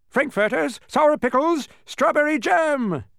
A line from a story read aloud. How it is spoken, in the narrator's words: shouted Officer Schrift